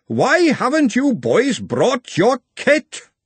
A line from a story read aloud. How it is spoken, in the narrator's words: thunder rolled overhead, and he roared